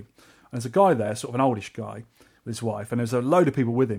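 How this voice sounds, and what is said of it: English accent. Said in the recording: “my stupid English accent”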